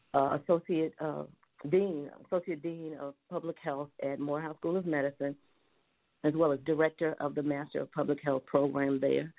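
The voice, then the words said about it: Raspy, hoarse voice. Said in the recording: “I am battling allergies got me down, so my voice is not usually this raspy, but I feel better than I sound.”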